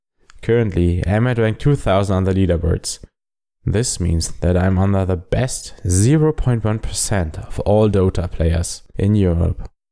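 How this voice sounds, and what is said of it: German accent. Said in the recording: “I am a German Immortal Dota 2 player, so please excuse my German accent and German pronunciation.”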